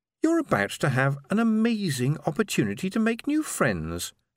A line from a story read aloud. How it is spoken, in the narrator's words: said sweetly